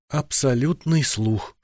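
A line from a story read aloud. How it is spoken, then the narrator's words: Woman whispering. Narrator (Russian): шепнула женщина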